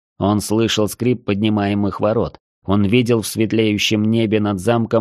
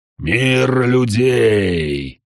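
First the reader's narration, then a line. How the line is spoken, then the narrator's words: Growling. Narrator (Russian): прорычал дьявол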